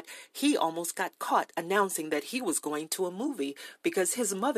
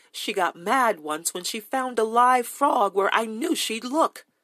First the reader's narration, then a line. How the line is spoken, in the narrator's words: More happily, he recalled